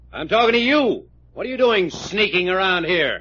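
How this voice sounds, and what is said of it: Yelling angrily. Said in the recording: “You yelling at me? ... Yes, I'm yelling at you.”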